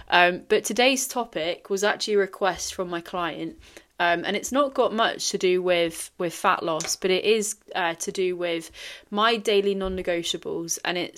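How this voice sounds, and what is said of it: Strained, tired voice giving out. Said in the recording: “apologies for the voice. I can't sound as enthusiastic as always because I think my voice is going to go.”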